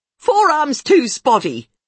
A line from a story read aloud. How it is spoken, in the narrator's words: she yells suddenly